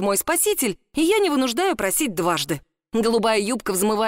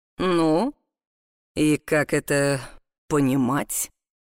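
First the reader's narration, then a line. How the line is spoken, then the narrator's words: Low alluring voice. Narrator (Russian): спрашивает он тем самым низким манящим голосом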